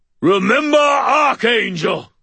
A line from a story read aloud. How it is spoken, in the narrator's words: boomed